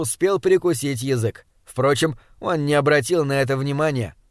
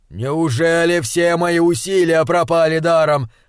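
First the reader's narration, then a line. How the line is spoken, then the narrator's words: Shouted in despair. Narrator (Russian): закричал он в потолок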